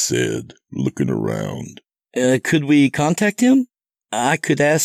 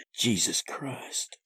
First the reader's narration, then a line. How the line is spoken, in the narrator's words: Seth muttered